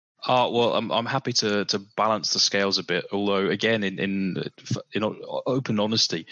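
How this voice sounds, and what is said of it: British accent. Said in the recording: “it's a very welcomed accent. You know, we don't get too many Brits on here ... I just have the accent. I grew up there ... went to school in Coventry”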